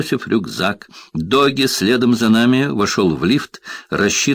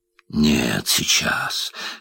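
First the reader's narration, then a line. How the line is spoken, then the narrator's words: Hoarse breathless demand. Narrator (Russian): хрипло дыша потребовал он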